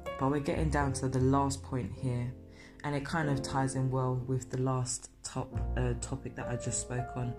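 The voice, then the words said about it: Crackly voice from a cold. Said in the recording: “I've got a little bit of a cold here, so I do apologise for the crackle in my voice.”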